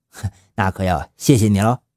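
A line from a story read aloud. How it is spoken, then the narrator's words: Laughing. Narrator (Chinese): 南京的公安笑着说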